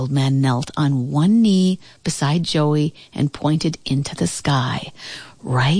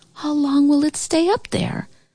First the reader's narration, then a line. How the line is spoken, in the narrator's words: The Sandman spoke softly